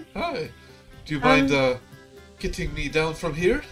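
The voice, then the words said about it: Put-on French accent. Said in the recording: “what a nice French accent you have.”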